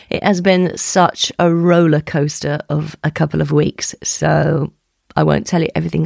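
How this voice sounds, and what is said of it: Croaky voice. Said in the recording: “my voice sounds a little croaky, it's because I've just tested positive for COVID”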